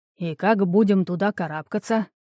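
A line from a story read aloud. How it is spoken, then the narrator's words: Displeased grumble. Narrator (Russian): недовольно проворчал Геатрос Аринеус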